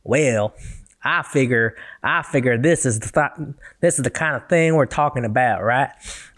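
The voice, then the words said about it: Relaxed American Southern accent, drawn-out words. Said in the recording (Chinese): “我教大家怎么学南方口音哦。美国南方口音呢，你就要想象你是一个呃很有钱很有钱的白人，然后躺，因为是半躺坐在一个那个摇椅上面 ... 就是它会有一点点那种感觉，南方的口音 ... 有点 chill chill 的 ... 有的字其实听起来就特别拉长，拉拉长一些字 ... 我的口音都学的蛮烂的”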